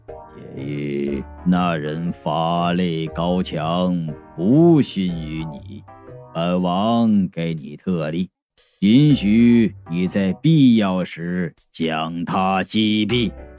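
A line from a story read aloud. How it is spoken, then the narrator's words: Low, hushed voice. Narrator (Chinese): 他压低声音说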